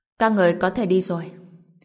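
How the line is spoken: Cold. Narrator (Vietnamese): Vương Lệ Trần lạnh lùng nói

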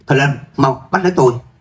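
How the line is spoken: Shouting. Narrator (Vietnamese): cô ta bèn bặm môi hét lớn

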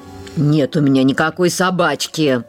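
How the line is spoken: Barking. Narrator (Russian): рявкнула

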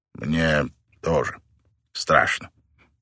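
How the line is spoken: Quiet confession. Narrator (Russian): тихо признался Мэтт

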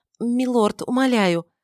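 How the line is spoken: Stammering. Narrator (Russian): запинаясь, начала она

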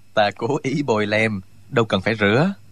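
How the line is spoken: Smiling. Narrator (Vietnamese): Trương Vô Kỵ mỉm cười

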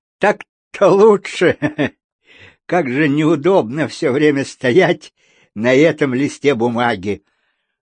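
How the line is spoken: Yawning, silly giggling. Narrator (Russian): весьма невежливо зевнул, глупо хихикнул и заявил

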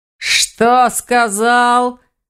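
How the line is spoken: Furious roar. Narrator (Russian): взревел оборотень в ярости

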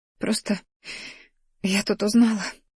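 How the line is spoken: Sobbing. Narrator (Russian): всхлипнула она

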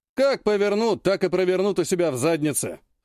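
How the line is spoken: Snorting. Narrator (Russian): хмыкнул Кравченко

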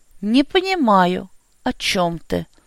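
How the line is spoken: Deliberately detached tone. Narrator (Russian): Нарочито отстраненным тоном проговорил Бестужев

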